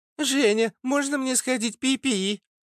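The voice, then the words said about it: Mocking mimicry of a girl. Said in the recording (Russian): “передразнил ее”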